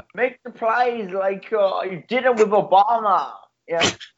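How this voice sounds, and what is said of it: Put-on German-sounding accent. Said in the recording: “Can you say this in a German accent ... You sound Swedish or whatever”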